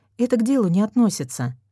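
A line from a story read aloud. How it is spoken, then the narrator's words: Sighing. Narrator (Russian): вздохнула я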